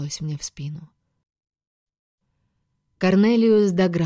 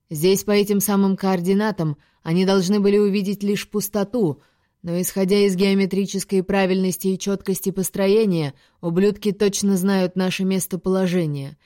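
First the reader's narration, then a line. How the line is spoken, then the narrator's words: Barked. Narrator (Russian): рявкнул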